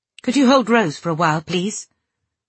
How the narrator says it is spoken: I said sharply

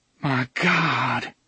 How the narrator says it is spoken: she murmured

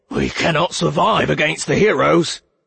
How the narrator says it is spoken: Brett snarled, his lip trembling

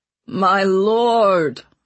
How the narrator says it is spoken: Ratcliffe whined

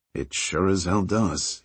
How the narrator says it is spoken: he muttered, half to himself

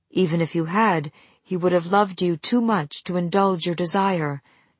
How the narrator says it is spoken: Eiru replied evenly

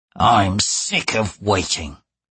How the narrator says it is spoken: the assassin growled

